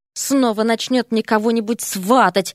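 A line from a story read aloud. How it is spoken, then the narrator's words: Muttered. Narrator (Russian): пробормотал Эрик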